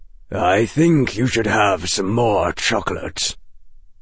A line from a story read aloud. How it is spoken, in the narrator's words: he said, and his voice was grave